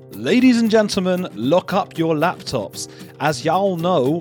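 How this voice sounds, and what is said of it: Put-on Southern drawl. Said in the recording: “I've just got a southern drawl there.”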